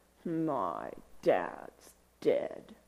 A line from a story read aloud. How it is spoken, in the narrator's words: I'd reply under my breath